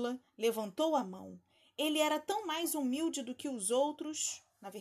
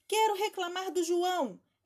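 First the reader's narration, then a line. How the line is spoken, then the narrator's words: Twins exclaiming. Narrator (Portuguese): exclamaram os gêmeos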